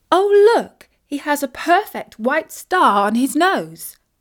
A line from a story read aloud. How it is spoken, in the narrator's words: exclaimed Isis